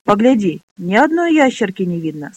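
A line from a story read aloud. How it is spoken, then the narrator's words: Plain. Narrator (Russian): сказала Джексону Минолли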